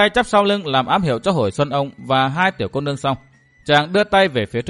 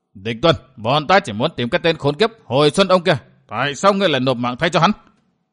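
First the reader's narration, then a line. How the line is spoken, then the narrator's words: Furious shout. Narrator (Vietnamese): căm tức, Lâm Sương quát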